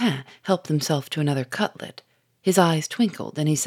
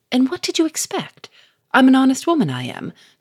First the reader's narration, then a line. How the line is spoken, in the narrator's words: said Victor sharply